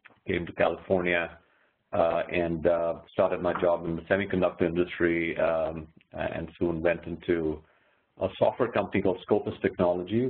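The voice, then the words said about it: Indian English accent. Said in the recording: “I'm actually originally from India, as you can probably tell from my accent.”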